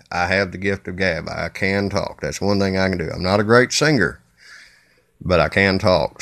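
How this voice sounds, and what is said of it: Southern US (Kentucky) accent. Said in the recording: “As you can tell by the southern accent, again, I am from the bluegrass state of Kentucky.”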